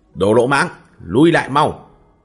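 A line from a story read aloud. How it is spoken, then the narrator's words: Shouting sharply. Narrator (Vietnamese): Dịch Cát quát lên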